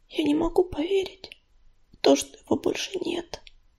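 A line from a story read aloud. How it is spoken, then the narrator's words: Downcast whisper. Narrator (Russian): прошептала она, не поднимая глаз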